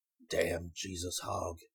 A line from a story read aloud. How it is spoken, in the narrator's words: muttered